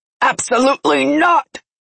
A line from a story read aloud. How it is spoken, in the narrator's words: he roared